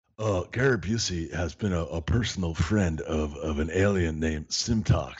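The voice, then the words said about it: Gary Busey impression. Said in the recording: “your Busey impression? ... A Busey impression.”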